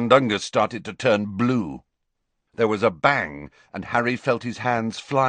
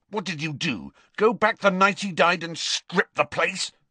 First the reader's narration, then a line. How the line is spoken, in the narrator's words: snarled Harry